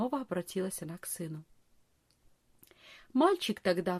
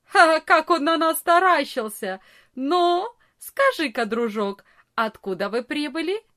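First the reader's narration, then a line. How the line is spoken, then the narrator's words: Loud laugh, big boy. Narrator (Russian): самый большой из ребят громко не засмеялся и не сказал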